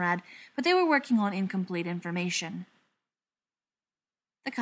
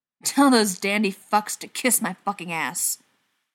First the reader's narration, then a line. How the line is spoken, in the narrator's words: Tom hissed